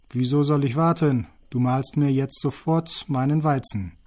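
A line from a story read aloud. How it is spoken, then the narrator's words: Loud call. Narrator (German): Aber der Kerl rief laut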